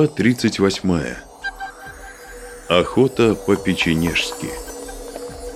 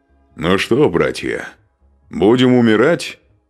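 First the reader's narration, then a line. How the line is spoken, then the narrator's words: Cheerful question. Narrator (Russian): весело спросил Устах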